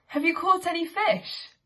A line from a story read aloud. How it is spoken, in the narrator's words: The man called out